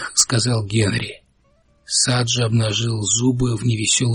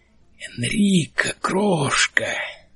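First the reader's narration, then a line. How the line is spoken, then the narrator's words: Roared. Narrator (Russian): проревел он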